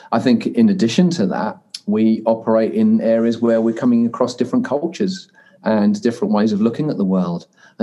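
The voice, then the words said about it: British accent. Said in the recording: “as you could probably gather from my accent, being originally British and becoming a New Zealander 15 years ago”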